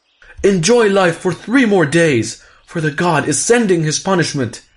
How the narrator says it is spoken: he shouted to the evil men who were dancing with joy

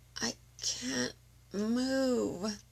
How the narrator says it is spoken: Marcus groaned

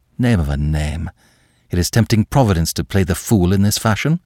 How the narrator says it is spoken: Le Chapelier swore softly, muttering

